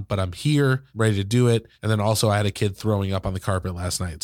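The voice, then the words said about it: Congested, stuffy sick voice. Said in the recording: “you can probably tell that I sound awful. ... I've got some like kind of sinus thing going on”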